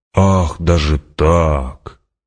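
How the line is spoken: Mocking drawl, emperor. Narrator (Russian): протянул император, и барон ясно услышал насмешку в его голосе

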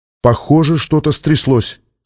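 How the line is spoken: Plain. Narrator (Russian): сказала Сьюзен

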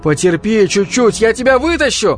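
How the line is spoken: Shouted. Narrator (Russian): крикнул Ганс

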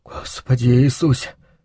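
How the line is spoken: Whispered. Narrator (Russian): шептал Луис

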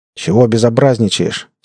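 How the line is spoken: Angry question. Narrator (Russian): сердито осведомился он

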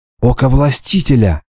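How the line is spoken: Whispered. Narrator (Russian): шепнула Хрисеида

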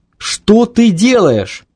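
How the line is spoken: Inner mental scream. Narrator (Russian): кричал его мозг

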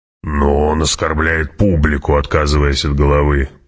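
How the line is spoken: Grumbling. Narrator (Russian): проворчал барон

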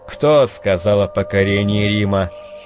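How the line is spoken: Stern, through teeth. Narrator (Russian): сурово процедил Гейзерих

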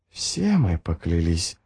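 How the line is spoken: Mother's whisper. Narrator (Russian): прошептала мать Гандринг

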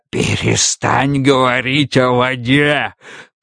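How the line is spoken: Hoarse wheeze. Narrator (Russian): прохрипел автоматей

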